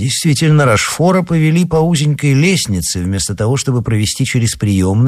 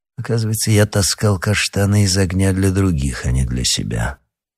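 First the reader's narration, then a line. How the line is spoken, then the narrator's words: Grumbling. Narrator (Russian): проворчал Рошфор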